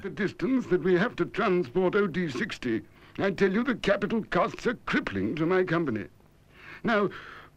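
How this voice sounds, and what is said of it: British accent. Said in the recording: “sounds like a British accent that ... is doing here”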